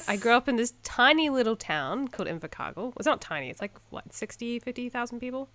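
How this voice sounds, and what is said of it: New Zealand accent. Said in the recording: “I'm from New Zealand, as you may tell from the beautiful accent that I have.”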